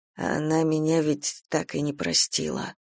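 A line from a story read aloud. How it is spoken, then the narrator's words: Guilty, depressed mutter. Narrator (Russian): пробормотал Веня, ощущая, как подкатывает волной очередной приступ то ли депрессии, то ли банального чувства вины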